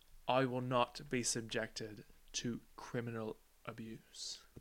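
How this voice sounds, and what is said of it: Put-on British accent, dramatic line. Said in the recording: “Can you do the accent with it? ... The British one? ... I need a word to like get me into the British.”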